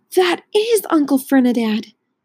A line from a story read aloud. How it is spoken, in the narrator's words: Grover gasped